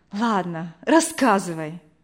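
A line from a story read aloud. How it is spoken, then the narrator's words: Sigh. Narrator (Russian): вздохнула Вера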